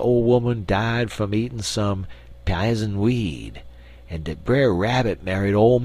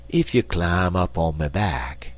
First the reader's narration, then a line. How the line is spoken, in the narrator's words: he continued, speaking softly